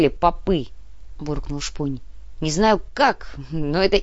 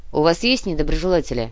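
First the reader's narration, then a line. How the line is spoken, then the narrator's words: Snorting chuckle. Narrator (Russian): хмыкнула Яна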